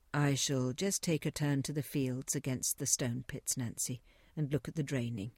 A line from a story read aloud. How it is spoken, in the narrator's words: said Godfrey